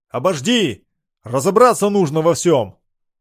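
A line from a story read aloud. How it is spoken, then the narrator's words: Shouting after someone. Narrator (Russian): прокричал вслед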